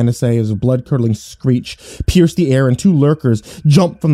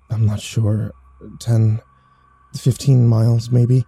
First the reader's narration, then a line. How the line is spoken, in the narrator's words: I whispered back